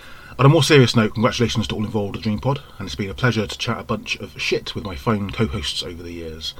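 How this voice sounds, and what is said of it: Rural regional English accent. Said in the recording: “my lovely farmyard-tinged accent”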